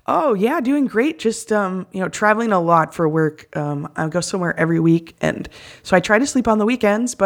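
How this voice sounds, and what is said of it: Hoarse, tired voice. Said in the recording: “I'm really tired. I got 4 hours of sleep ... I've been sick. So you'll have to excuse my still hoarse voice.”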